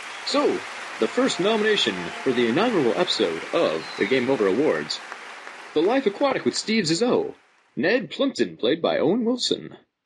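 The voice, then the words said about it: Game show announcer voice. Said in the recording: “Is that a good game show voice?”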